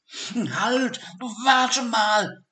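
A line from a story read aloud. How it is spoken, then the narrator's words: Calling out. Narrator (German): rief Sigi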